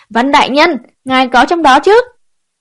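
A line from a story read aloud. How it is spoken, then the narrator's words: Yelling while rushing upstairs. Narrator (Vietnamese): thịch thịch thịch xông lên lầu hai giống cổ gào lên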